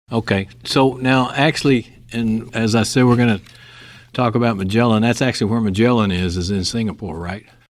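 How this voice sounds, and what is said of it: Texas accent. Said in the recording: “the same Texas accent I have”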